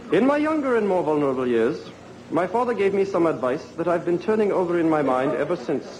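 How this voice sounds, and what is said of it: Affected British accent. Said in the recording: “speaking in this like affected British accent ... A very interesting book to read in a British accent.”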